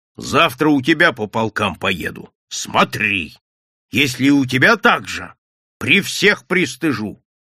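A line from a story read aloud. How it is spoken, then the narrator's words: Loud agitated threat. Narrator (Russian): все еще не выйдя из вчерашнего возбуждения, громко с угрозой сказал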